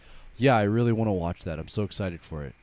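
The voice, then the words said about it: Flat monotone imitation of excitement. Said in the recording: “he's a very monotone person ... That's how his excitement voice is ... I can't tell that you're excited.”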